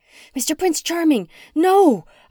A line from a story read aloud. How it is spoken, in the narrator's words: screamed, sensing the danger